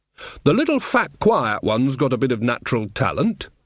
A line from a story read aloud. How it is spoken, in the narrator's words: said Nanny Ogg